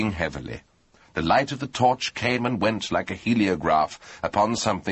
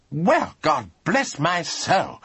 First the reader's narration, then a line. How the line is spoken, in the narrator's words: cried Lord Emsworth